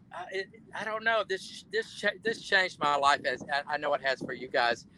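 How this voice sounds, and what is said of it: Southern US accent. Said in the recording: “got my Southern accent back”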